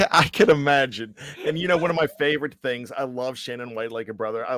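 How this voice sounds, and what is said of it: Usual voice. Nothing is said of it.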